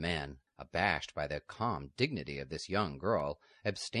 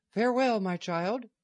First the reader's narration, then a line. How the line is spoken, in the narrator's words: the abbess exclaimed